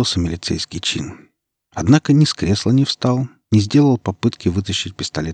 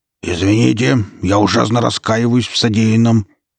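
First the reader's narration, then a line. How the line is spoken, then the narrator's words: Growled. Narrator (Russian): прорычал мэр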